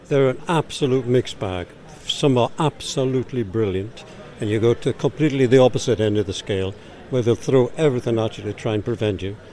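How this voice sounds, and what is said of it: Geordie accent. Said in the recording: “I'll keep my Geordie accent slow... A good Geordie accent”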